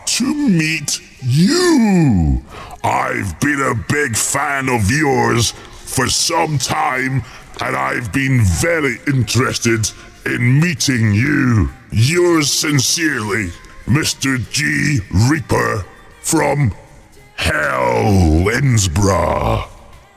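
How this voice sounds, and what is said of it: Grim Reaper voice, sounding like Santa. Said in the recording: “that was meant to be my impression of the Grim Reaper. Sounded more like Santa Claus”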